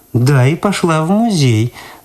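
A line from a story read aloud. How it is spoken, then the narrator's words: Mocking. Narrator (Russian): насмешливо повторила Люда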